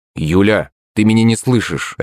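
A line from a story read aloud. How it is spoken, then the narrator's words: Sharp reply. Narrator (Russian): резко ответил я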